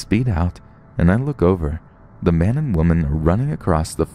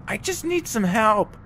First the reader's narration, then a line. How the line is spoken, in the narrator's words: The woman yells